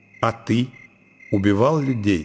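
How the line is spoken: Plain. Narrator (Russian): спросил Оленин

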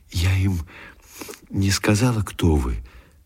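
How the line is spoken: Timid. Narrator (Russian): начала она робко

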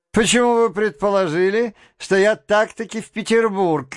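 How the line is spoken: Laughing. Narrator (Russian): засмеялся и Петр Степанович

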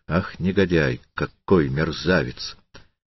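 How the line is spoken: Indignant undertone. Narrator (Russian): Он вполголоса повторял с негодованием

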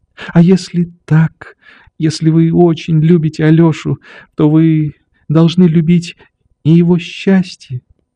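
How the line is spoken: Timid whisper, female. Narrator (Russian): Прибавила она робко и шепотом

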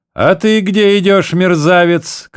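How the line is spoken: Zealous shout. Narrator (Russian): крикнул поручик Непшетшетский на другого солдата, желая своим рвением прислужиться важному князю

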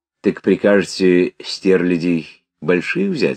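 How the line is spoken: Plain. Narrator (Russian): спросил эконом

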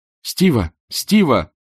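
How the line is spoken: Shouting. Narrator (Russian): прокричала она брату

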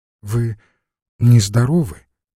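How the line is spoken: Young man's timid question. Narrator (Russian): робко спросил молодой человек

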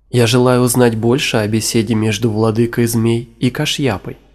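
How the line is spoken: Plain. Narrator (Russian): сказал Джанамеджая

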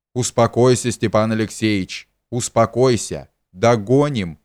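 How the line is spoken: Plain, uncle. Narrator (Russian): сказал дядя

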